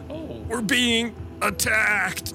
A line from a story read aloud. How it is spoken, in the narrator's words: Ward shouts